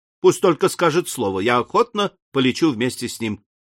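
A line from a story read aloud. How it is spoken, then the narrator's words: Exclaiming. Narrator (Russian): воскликнул мичман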